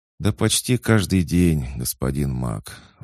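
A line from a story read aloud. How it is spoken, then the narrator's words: Sighing. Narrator (Russian): вздохнула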